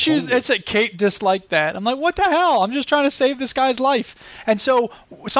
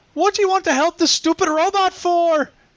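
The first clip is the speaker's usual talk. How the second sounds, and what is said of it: Put-on Irish accent. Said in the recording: “It's an Irish accent. That's kind of how she sounds. So if it's not a good Irish accent ... It did sound slightly Irish.”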